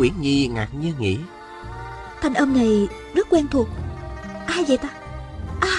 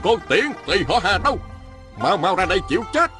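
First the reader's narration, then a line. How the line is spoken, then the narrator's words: Man's shout. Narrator (Vietnamese): Một nam nhân quát lên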